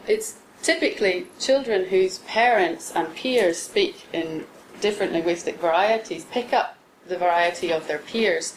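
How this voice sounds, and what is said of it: Northern Irish accent. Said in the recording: “a Northern Irish accent, a bit like me”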